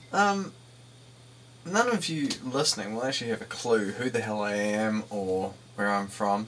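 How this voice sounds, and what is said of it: New Zealand accent. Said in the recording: “As you may have guessed from my accent, I am from New Zealand.”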